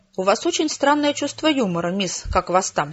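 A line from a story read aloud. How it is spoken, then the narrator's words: Angry woman. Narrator (Russian): сердито ответила она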